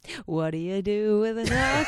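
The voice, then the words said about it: Sung like a Broadway musical number. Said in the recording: “your impression of our theme song sounds like it could be from Chicago”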